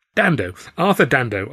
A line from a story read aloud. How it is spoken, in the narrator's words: I burbled